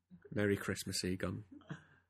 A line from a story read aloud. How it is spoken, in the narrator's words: Peter said softly